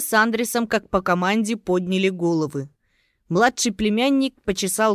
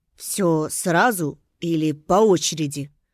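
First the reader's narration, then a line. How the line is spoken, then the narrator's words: Hoarse. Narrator (Russian): хриплым голосом уточнил Андрес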